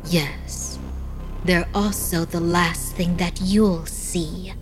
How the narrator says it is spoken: in a soft voice, she replied

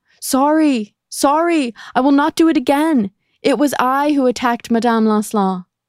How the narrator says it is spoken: she screamed out of her cell window

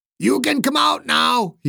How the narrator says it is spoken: he yelled

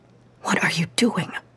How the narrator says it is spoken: Miyako whispered, at least as much to herself as to Emma

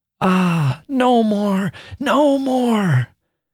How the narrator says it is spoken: she wailed, as with a quick new horror of it, under her breath

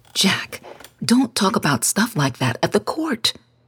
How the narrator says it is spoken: she whispered

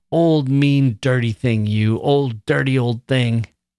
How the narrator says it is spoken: screamed

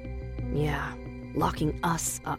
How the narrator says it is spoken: I whispered to Daphne

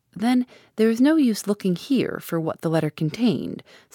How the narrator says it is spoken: said Mr

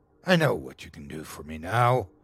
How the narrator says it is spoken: he said in a dark, condescending tone

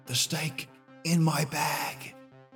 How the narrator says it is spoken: She looked at John and whispered

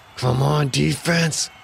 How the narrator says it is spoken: Quentin said through gritted teeth

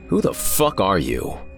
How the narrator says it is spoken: I snarled

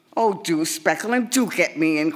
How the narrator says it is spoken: cried Mary Eliza as she hopped gleefully from one foot to the other

